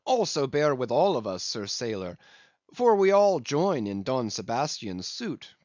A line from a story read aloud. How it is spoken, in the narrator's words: cried the company, with exceeding interest